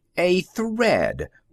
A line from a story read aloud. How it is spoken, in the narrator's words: one of the engineers shouted, almost with relief